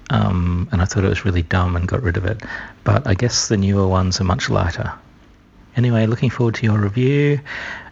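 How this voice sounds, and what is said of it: Whispering. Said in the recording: “I don't know why I'm whispering ... he's whispering”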